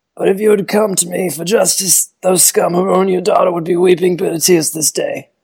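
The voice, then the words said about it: Don Corleone impression. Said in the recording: “you didn't try to do a Don Corleone impression ... Not bad. It's much better than I would have expected from you”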